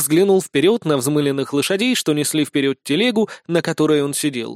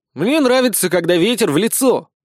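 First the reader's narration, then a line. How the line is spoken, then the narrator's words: Shouted. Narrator (Russian): прокричал Никита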